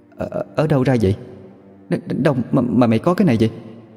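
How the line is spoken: Startled stammering. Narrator (Vietnamese): Bà Thủy giật mình, lắp bắp

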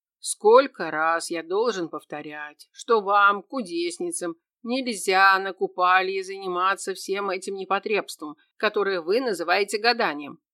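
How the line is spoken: Stern, loud question. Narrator (Russian): строго и громко спросил чаровник

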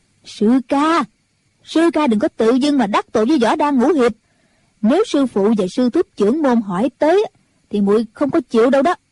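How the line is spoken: Raised voice. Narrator (Vietnamese): Mụ cao giọng

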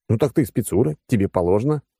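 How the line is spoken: Scoffing snort. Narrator (Russian): хмыкнул я

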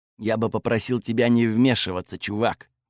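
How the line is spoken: Muttered. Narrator (Russian): буркнул он

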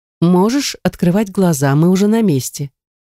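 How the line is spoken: Calm announcement. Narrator (Russian): все таким же спокойным голосом возвестила она

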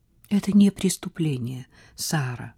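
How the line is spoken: Mother's quiet remark. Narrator (Russian): тихо заметила ее мать

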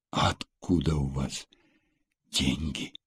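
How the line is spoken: Whispered question. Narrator (Russian): шепотом спросила Элла

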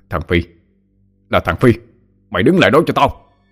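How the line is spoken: Shouting. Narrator (Vietnamese): Ông la lên

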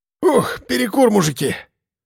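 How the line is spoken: Exhaled. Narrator (Russian): выдохнул Архип

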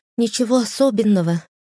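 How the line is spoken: Sighing. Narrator (Russian): вздохнула Агния

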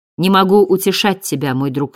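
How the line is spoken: Plain. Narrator (Russian): сказал он

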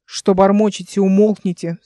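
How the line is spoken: Stern command. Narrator (Russian): строго скомандовал Миллион

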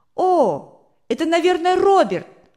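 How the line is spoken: Exclamation. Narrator (Russian): воскликнул Рудик

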